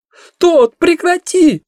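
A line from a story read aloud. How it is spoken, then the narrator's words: Yelling. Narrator (Russian): вопит Виола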